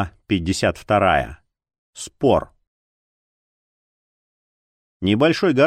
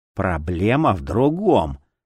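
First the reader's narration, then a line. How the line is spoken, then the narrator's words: Angry exhale. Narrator (Russian): зло выдохнул Узора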